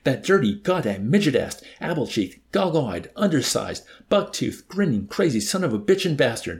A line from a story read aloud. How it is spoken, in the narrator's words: the Assyrian sputtered